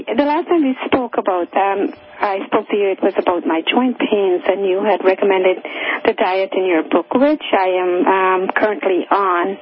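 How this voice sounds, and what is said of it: Hoarse, fading voice. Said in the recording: “I'm sort of losing my voice.”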